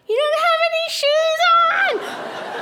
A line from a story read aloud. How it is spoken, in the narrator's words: A total of like 4 cars, I think, like yelled out